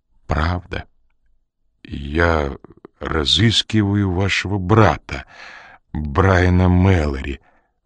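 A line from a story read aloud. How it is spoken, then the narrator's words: Timid male voice. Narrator (Russian): робко произнес он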